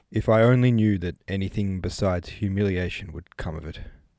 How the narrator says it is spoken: answered, coldly

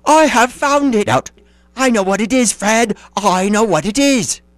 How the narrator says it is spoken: the plump sister cried out

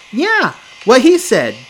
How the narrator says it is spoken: Jake blurts out

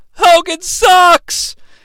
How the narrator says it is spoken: a fan yells

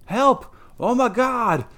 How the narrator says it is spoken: a fright-mad voice shriek out

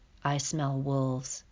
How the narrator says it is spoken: whispered Roz

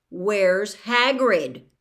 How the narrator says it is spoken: Harry repeated loudly

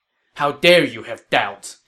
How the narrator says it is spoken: Cao Ren said angrily

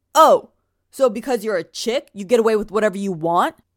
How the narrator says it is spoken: From across the circle, he shouts

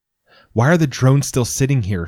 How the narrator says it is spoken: She shouts

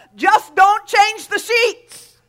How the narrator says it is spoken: Wigglesworth yelled back to her and said

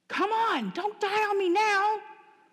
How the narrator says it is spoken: my lap band doctor yelled

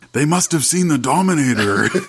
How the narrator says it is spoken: he shouts out

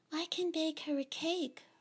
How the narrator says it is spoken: Rose, the younger and quieter sister, whispers

